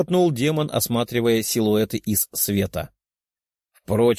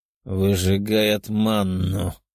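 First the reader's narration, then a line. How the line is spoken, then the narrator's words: Growled. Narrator (Russian): прорычал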